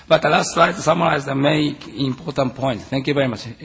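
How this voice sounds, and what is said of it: Voice sounds bad, strained. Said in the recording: “I'm sorry, my voice is again bad.”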